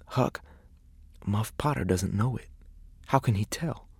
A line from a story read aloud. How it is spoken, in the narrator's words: he whispered